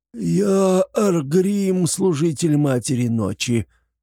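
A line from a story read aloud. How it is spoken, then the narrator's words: Hoarse wheeze. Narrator (Russian): просипел пленник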